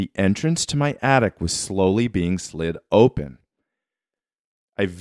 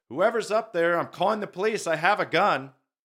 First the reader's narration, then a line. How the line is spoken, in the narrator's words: yelled